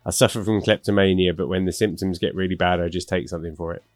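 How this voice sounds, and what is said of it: Deadpan joke delivery. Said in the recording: “deadpan”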